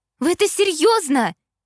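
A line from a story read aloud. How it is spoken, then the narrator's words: Shouting. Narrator (Russian): закричала я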